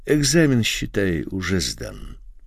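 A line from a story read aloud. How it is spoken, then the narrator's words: Added affectionately. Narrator (Russian): и ласково добавил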